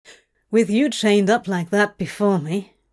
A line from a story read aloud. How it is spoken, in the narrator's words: Crowley groaned quietly